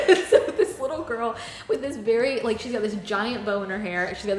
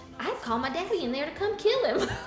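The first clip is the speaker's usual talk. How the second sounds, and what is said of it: Deep Southern accent, child's voice. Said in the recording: “she's got this deep Southern accent.”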